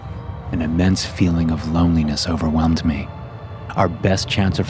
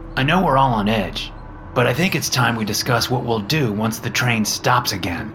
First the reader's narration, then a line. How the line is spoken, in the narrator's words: Frank said in his usual annoyed tone